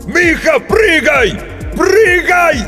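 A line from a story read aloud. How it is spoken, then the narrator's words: Desperate, exhausted shout. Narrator (Russian): Из последних сил закричал Грицко, уже понимая, что поздно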